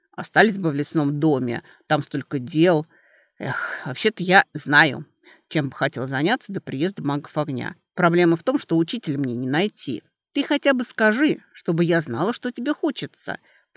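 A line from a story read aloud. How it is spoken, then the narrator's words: Grumbled. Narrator (Russian): проворчала Алиса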